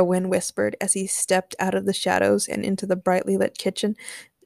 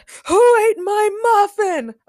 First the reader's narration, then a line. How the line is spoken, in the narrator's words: Elijah screamed